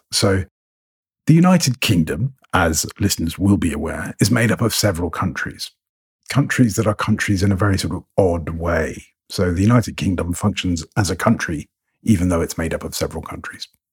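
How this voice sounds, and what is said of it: English received pronunciation accent. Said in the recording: “I sound English. My accent is fairly middle of the road, received pronunciation”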